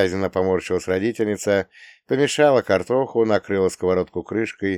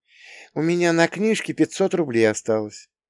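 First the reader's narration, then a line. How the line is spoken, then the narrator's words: Gentle. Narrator (Russian): мягко начала мама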